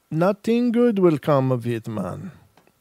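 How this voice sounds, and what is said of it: Poor put-on Jamaican accent. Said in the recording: “That was a terrible Jamaican accent.”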